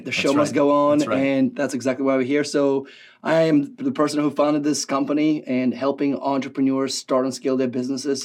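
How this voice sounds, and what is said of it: Hoarse, worn-out voice. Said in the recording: “I just returned from a long, long trip, and my voice is just shot.”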